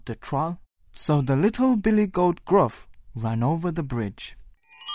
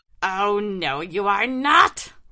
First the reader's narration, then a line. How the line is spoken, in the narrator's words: roared the troll